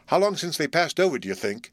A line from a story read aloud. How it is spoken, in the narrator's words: asked Practical Bluff